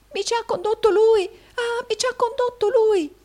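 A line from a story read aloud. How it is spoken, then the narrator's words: Exclaimed. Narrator (Italian): esclamò Smike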